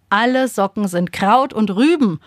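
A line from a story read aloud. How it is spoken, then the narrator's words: Called out. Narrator (German): ruft Papa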